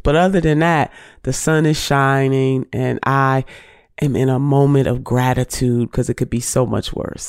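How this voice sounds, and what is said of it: Nasal voice from a cold. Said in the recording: “I sound kind of nasally, it is because I am just getting over a very severe cold”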